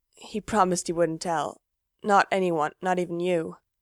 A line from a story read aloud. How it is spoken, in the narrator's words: he's gone so pale and his voice is shaking when he says